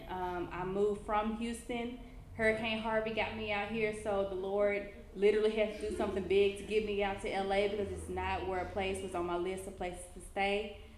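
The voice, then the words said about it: Memphis accent. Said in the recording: “the chick from Memphis who people always want to ask where am I from because of my accent”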